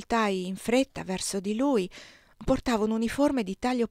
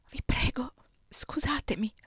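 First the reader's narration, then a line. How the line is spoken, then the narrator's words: Whisper. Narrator (Italian): sussurrai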